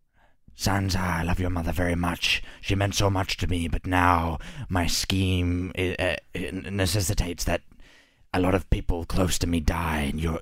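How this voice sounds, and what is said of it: Peter Baelish impression. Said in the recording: “do a voice? ... Do your Peter Baelish impression”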